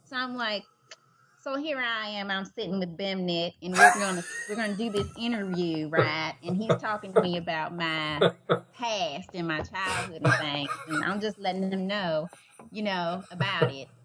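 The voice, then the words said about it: Put-on Southern accent. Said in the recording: “do a Southern accent... do a Southern accent.”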